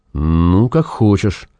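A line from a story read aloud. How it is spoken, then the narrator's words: Unusually uncertain voice. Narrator (Russian): произнес Зев непривычно неуверенным голосом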